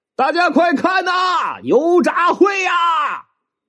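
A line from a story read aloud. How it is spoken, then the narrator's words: Loud shout. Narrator (Chinese): 大声的喊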